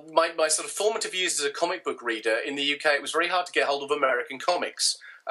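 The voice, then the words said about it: British accent. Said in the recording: “You can tell from my accent. I'm in the UK.”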